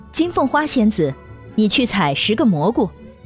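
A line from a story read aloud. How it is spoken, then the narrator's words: Fairy queen, laughing. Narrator (Chinese): 仙女王后笑着说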